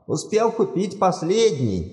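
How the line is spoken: Exclaiming. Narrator (Russian): воскликнул он

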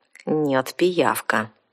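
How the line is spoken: Through gritted teeth. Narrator (Russian): сквозь зубы процедила наемница

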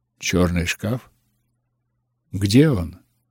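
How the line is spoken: Plain. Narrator (Russian): спросил я

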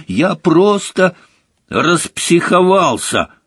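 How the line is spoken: Angry. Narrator (Russian): сердито закончила Джинни

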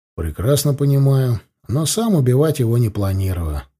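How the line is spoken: Calm reply. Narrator (Russian): спокойно ответил я

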